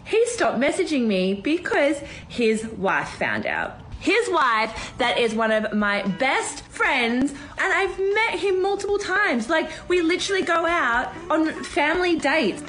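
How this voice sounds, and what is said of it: Australian accent with upward inflection. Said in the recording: “upward inflection with the Australian accent made it even more annoying”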